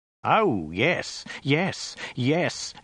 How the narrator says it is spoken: exclaimed Ogdai with fierce pride

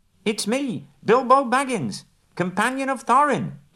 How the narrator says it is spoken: cried

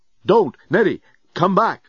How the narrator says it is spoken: Dan yelled

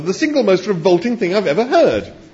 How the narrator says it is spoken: exclaimed Arthur

